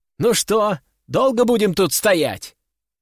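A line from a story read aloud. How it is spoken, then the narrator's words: Girl shouting from corridor. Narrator (Russian): крикнула девочка из коридора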